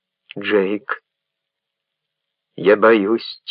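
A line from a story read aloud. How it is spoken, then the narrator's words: Quiet, tearful, trembling. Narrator (Russian): тихо сквозь слезы и дрожь сказала Ренни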